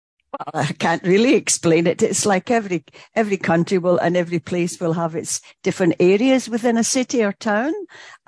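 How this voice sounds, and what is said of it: Upper-class Scottish accent. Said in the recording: “That is not a British accent. ... it's a Scottish accent. And not only that, it's an upper crust Scottish accent.”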